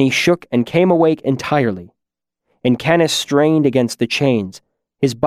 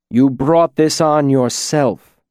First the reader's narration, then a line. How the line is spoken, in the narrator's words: Teilu said